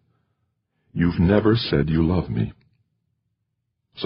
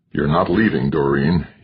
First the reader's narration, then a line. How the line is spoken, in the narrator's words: he said almost in a growl